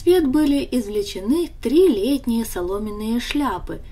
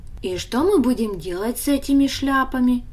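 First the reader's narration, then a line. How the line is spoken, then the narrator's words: Plain question. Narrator (Russian): спросил Даня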